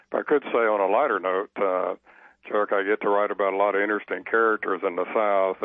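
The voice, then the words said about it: Southern American accent. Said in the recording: “I talk funny. I stood out, you know, with my southern accent.”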